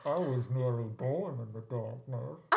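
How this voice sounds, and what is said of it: Menacing Bane character voice. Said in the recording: “my Bane impression ... can you do Bane? ... That was actually very frightening ... That was really scary.”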